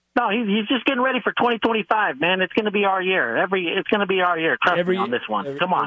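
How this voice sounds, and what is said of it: Generic white guy character voice. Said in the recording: “That's a really good impersonation... I thought it was pretty spot on... I just used my generic white guy voice.”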